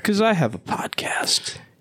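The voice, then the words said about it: Whispered speech. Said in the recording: “why I'm whispering it now ... Why are you whispering it?”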